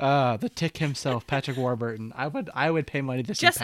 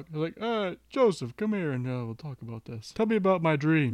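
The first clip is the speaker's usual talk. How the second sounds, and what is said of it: Imitates another person's voice. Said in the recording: “My terrible Patrick Warburton impression.”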